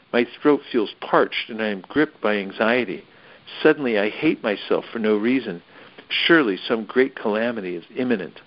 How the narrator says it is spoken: Sighing heavily, continued

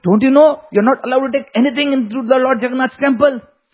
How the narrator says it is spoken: he shouted at Nandi Mata

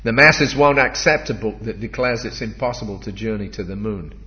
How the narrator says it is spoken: he pouted testily

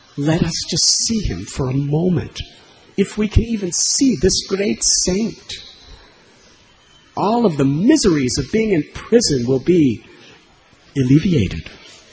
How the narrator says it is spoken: They begged the jail keepers

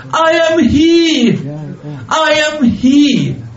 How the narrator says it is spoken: he was shouting in a loud voice

